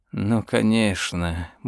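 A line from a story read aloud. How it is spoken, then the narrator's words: Muttering. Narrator (Russian): бормотал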